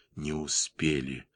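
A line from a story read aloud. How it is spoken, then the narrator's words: Whisper. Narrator (Russian): шепнул Мюллер Йозефу Бранту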